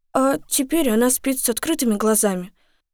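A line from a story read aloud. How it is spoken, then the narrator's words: Sad. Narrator (Russian): печально добавила Дагни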